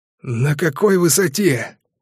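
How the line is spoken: Hoarse rasp. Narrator (Russian): прохрипел Урфинджус

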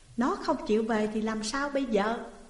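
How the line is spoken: Plain. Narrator (Vietnamese): vợ Uông nói

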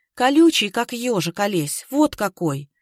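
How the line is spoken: Calm, even voice. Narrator (Russian): Маруся ответила спокойным, ровным голосом

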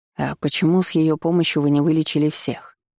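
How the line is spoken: Plain, space guard. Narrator (Russian): спросил космический стражник

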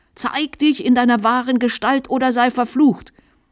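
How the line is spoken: Shrill high-pitched scream. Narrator (German): schrie der Bischof in gellendem Diskant

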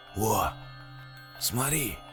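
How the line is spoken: Loud close whisper. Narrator (Russian): Громким шепотом, прижавшись чуть ли не к самому лицу парня, прошептал капитан

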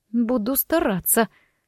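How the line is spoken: Through gritted teeth. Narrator (Russian): сквозь зубы процедила я

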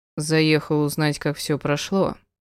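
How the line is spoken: Even explanatory tone. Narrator (Russian): ровным голосом поясняет тот

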